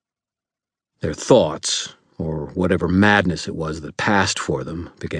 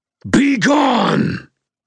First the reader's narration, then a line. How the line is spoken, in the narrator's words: I roared